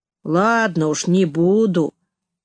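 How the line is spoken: Drawled. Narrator (Russian): протянул он

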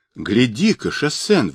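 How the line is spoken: Exclamation. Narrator (Russian): воскликнул Джубадзе

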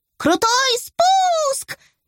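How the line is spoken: Excited squeal. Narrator (Russian): визжала, съезжая с ним с горки

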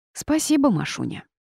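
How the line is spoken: Snort. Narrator (Russian): фыркнула я

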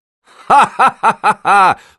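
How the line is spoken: Laughter. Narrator (Russian): засмеялся Шетарди

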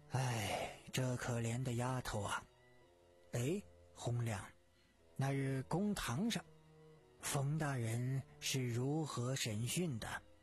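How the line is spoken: Sighing. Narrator (Chinese): 狄仁杰叹道

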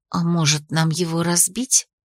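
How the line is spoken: Whispered suggestion. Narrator (Russian): предложила Ририан шепотом

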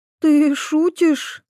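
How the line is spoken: Uncertain, curious. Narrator (Russian): неуверенно полюбопытствовала Иветта

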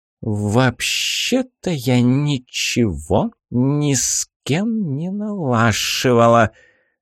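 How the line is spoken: Vicious hiss. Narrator (Russian): злобной гадюкой зашипела Баба-Яга

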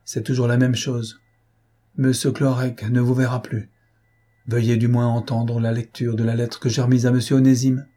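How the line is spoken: Old servant sighing. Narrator (French): dit le vieux serviteur en soupirant

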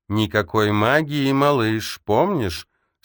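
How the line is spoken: Plain. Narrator (Russian): сказала Фериус

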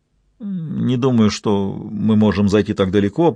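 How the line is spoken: Mumbling. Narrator (Russian): промямлил Ги, который впервые осознал, что никогда прежде по-настоящему не задавался вопросом, чем закончится их приключение

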